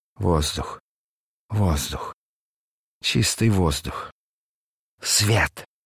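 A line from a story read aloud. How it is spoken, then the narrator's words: Ecstatic moaning. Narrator (Russian): восторженно стонал он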